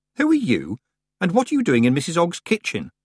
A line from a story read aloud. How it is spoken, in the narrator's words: Tiffany said sharply